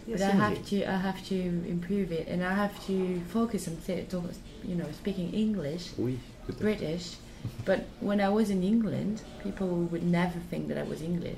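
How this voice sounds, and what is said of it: French speaker, British-leaning English accent. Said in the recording (French): “T'as pas d'accent français en tout cas... T'as moins d'accent français que moi... on me dit souvent que j'ai un bon accent, même si c'est pas du tout un accent ni anglais ni américain, mais en tout cas, il, se faufile entre, entre les deux... je, trouvais que tu avais un accent anglais”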